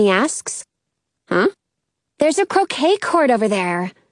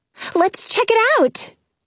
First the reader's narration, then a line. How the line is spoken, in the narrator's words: Robin says excitedly